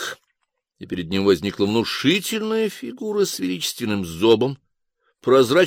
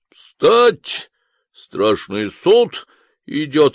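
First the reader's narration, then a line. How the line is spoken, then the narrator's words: Barked loudly. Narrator (Russian): гаркнул Хвостищев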